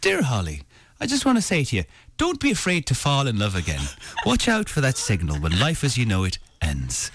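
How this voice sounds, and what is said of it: Gerard Butler's imperfect Irish accent. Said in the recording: “I started doing this Irish accent because Gerard Butler has affected this, and I would say far from perfect, Irish accent.”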